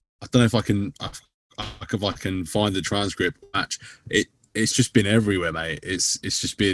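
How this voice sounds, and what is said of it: Usual voice. Nothing is said of it.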